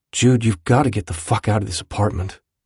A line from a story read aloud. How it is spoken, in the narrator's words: he said quietly